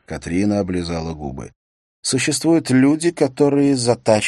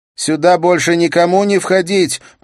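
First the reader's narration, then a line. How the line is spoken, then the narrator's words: Shouted. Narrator (Russian): прокричала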